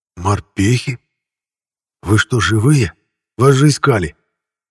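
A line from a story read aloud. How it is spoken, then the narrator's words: Trembling voice. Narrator (Russian): Начал он говорить дрожащим голосом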